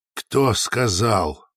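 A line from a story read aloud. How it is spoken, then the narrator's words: Forced out. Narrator (Russian): выдавил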